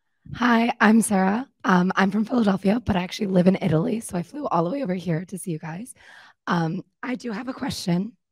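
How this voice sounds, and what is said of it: Weak, strained voice. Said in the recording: “my voice is a little bit down”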